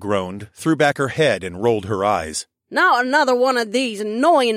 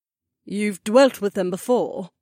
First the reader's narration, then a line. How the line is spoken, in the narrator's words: Olette asked in her strangely soothing, undulating voice